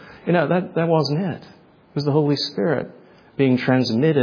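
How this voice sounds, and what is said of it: Usual voice. Nothing is said of it.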